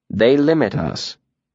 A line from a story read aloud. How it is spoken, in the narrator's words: the mayor said firmly